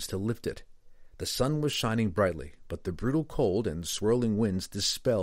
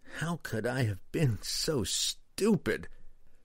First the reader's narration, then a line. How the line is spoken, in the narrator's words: Kessel groaned